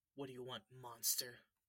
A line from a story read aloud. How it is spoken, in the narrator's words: Colin growled